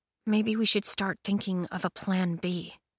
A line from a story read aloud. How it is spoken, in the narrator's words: Cress murmured